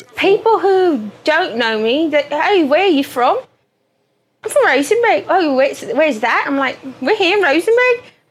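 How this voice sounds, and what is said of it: British-sounding English accent. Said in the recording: “Don't let the queen's tongue fool you ... how my mom got that accent ... Oh, I'm not from England, sorry ... Is 100% Texan ... How'd you talk like that?”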